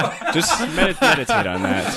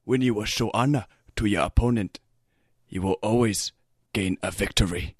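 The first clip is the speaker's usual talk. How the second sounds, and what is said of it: Put-on Japanese accent. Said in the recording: “Complete with Japanese accent. ... That was a good accent, though.”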